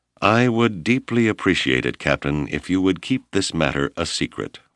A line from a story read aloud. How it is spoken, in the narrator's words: Whipple said